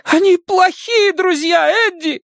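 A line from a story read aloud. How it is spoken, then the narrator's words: Near-hysterical shout. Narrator (Russian): Чуть ли не в истерике выкрикнула она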